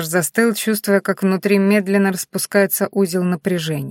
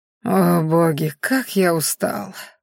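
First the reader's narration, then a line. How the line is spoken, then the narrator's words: Weary moan. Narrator (Russian): простонал он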